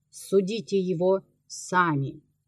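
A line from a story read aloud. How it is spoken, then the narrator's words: Calm, confident. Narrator (Russian): игумен, непоколебимый в своей доверенности, спокойно сказал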